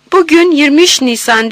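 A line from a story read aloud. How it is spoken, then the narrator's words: Shouted. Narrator (Turkish): diye bağırdım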